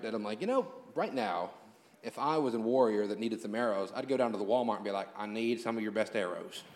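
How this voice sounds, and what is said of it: Hillbilly accent. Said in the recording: “hillbilly accent... That's the only accent I got.”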